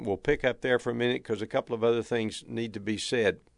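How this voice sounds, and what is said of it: Texan accent. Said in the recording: “my accent or from uh, a number of the mannerisms and the way that I speak that I hail from Texas”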